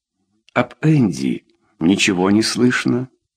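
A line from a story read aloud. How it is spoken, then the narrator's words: Very calm question. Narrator (Russian): спросил очень спокойно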